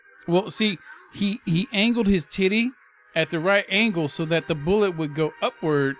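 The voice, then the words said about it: Switches to a put-on street dialect. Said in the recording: “Why did your voice change? ... Why did you go from regular to ghetto?”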